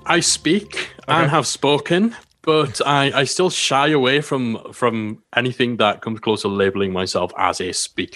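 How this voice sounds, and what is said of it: Soothing British accent. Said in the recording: “You can hear he's got a sexy, soothing British accent”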